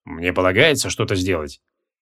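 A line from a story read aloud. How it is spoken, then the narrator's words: Calm, quiet question. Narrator (Russian): Креол остался полностью невозмутим, тихо спросил у лода Гвайдеона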